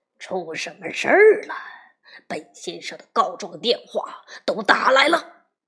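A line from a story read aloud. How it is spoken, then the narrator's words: Roaring. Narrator (Chinese): 两吨灰熊咆哮着说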